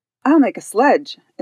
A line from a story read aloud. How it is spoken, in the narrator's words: exclaimed Claus